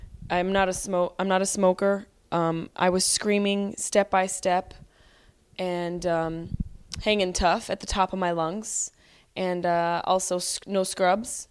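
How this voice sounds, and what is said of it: Hoarse, strained voice. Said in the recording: “my voice is a little hoarse... it's a teeny little horse... My voice is hoarse because of the screaming at the NKOTB concert”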